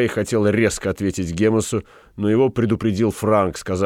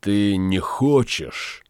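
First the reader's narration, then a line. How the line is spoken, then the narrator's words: Sigh. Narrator (Russian): вздохнул Франк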